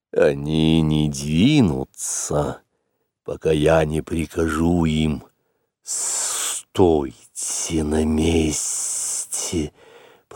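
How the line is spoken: Hissed. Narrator (Russian): прошипел Каа

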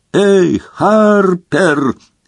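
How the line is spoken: Desperate yell. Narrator (Russian): заорал в отчаянии Гарри

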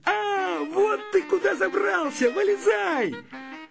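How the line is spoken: Shouting. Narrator (Russian): Славик закричал

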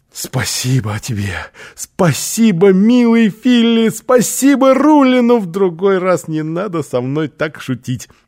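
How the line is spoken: Exclaiming. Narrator (Russian): Оскар воскликнул

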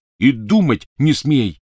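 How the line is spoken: Angry bark. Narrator (Russian): рявкнул на нее Рон

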